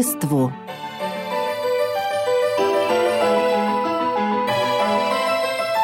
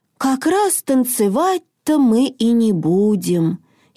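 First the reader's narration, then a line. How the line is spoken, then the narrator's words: Sighing again. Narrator (Russian): Хенрик вздохнул еще раз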